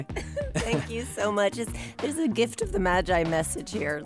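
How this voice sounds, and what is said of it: Hoarse, nearly lost voice. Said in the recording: “has sadly lost her voice ... losing my voice”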